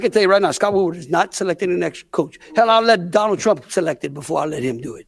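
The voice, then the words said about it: Louisiana Bayou accent. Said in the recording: “his Louisiana accent ... That Bayou accent”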